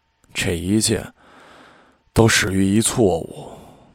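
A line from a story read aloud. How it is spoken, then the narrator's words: Puzzling mutter. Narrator (Chinese): 且马莫名其妙的嘀咕了一句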